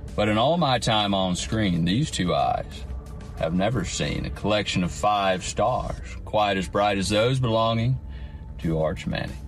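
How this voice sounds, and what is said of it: Celebrity impersonation voice. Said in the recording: “It's an impersonation, but it worked.”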